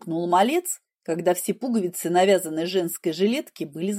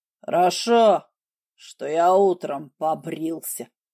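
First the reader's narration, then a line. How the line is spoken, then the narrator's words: Gruff bass grumble. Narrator (Russian): буркнула басом свинка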